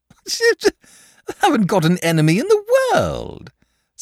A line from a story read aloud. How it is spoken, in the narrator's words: said the dragon cheerfully